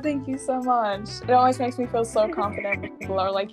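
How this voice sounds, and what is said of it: American-sounding English accent. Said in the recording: “by your accent, I thought you are pretty much American... German people don't have that accent... your accent is so good... her accent is so different”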